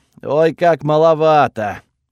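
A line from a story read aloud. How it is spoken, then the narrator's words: Sigh. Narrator (Russian): вздохнул Готфред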